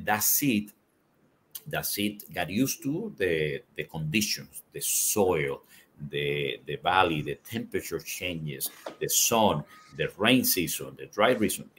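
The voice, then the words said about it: Non-native English accent. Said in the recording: “I have a bad accent in English”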